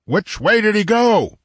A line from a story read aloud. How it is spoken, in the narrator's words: roared Conan